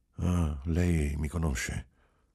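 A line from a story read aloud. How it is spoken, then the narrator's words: Anguished sigh, soft voice. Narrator (Italian): Sospirò, angosciato, e disse, piano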